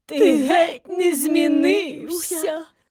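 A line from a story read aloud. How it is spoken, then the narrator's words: Old women sobbing. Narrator (Ukrainian): схлипували старенькі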